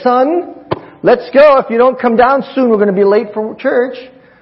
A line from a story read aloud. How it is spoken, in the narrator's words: She yells upstairs